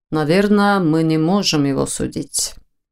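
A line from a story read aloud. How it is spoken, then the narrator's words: Uncertain mutter. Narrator (Russian): неуверенно пробормотал Войтых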